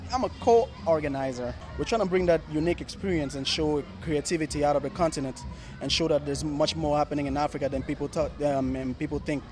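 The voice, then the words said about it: American-influenced accent. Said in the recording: “We can tell from your accent you spent time in the States.”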